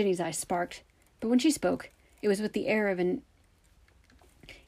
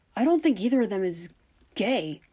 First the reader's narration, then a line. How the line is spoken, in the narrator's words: seemed to struggle with himself for a moment before blurting